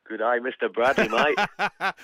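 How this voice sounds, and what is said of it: Put-on broad Australian accent. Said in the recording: “I've picked up the Mick Dundee accent since I've been here for all of 3 bloody years.”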